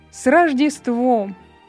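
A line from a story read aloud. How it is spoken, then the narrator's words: Cheerful laughing. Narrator (Russian): возница весело засмеялся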